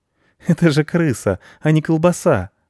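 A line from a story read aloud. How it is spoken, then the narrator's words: Laughing boy. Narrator (Russian): засмеялся мальчик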